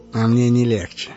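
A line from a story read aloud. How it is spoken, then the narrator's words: Hoarse sorcerer's voice. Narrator (Russian): хрипло сказал колдун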